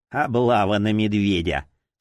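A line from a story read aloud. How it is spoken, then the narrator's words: Sarcastic mutter. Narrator (Russian): саркастически пробормотал он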